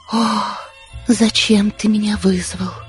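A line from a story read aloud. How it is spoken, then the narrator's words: Quiet moan. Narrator (Russian): тихо простонала она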